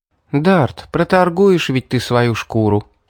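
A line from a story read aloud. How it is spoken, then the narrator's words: Sighing. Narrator (Russian): вздохнула Мэри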